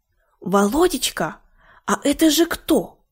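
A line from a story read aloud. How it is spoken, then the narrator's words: Mother's whispered question. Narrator (Russian): спросила шепотом мать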